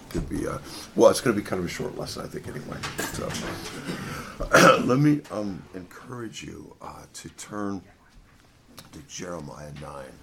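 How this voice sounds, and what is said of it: Strained, sore-throated voice. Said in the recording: “sorry about the voice. I'm kind of fighting a sore throat here”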